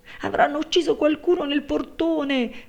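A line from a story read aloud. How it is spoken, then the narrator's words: Maid shrieking. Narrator (Italian): strillò la serva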